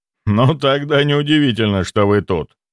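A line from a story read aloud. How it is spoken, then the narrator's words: Laughing. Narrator (Russian): рассмеялся имперец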